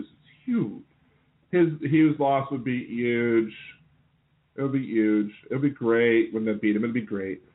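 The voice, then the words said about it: Poor Donald Trump impression. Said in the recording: “I'm working on my impression. I know it's horrible.”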